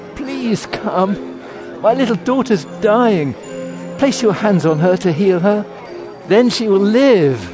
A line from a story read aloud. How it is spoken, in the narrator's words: He begged